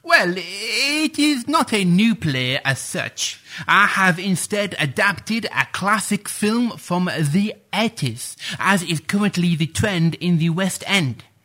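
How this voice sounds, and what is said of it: Sheffield English accent. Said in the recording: “as I'm sure you can tell from my accent, I am Sheffield born and bred”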